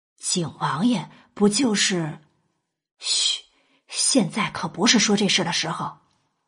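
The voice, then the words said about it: Hushed whispered murmur. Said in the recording (Chinese): “小声议论起来”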